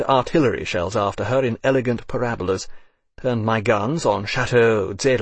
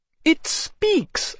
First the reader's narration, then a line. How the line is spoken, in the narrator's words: I cried